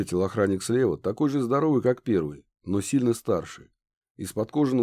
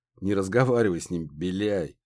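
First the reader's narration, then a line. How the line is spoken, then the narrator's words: Contemptuous snort. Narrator (Russian): презрительно хмыкнул первый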